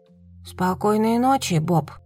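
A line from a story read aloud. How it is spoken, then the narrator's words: Mumbled. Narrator (Russian): бормотала Бо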